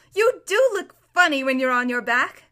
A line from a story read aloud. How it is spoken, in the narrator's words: Shasta burst out laughing and said